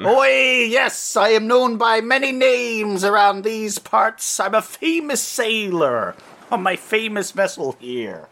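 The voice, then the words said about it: Put-on pirate accent. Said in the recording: “I just have the pirate accent on because that's the best nautical accent”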